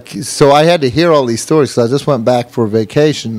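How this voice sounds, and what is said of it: Slight accent. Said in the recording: “if you listening picked up on somewhat of an accent”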